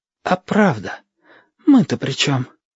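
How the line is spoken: Whispering. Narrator (Russian): шепотом сказал Чича

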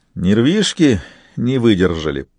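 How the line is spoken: Knowing snort. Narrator (Russian): понимающе хмыкнул принц

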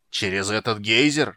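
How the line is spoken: Roaring. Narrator (Russian): проревел Фиш

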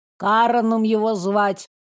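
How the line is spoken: Grumbled. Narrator (Russian): буркнула Верда

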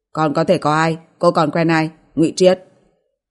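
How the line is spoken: Cold, hiding embarrassment. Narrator (Vietnamese): Niếp Duy Bình có chút không được tự nhiên, che giấu sự bối rối bằng sự lạnh lùng

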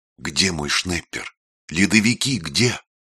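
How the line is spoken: Whispered shout. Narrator (Russian): шепотом крикнул Родион

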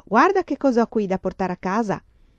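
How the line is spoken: Shout. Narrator (Italian): le gridò

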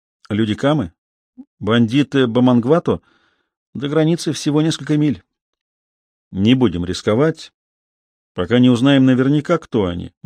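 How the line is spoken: Grim reply. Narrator (Russian): мрачно ответил Зуга

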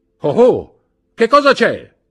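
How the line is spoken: Shouted. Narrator (Italian): gridò il brigadiere

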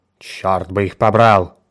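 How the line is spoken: Grumbling. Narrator (Russian): ворчал он

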